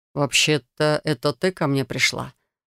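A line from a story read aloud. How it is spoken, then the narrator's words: Smirking. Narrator (Russian): усмехнулся он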